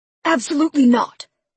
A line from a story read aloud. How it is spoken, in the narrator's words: Lincoln roared